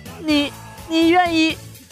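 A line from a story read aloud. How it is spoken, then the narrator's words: Choked, tearful. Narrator (Chinese): 她哽咽着问我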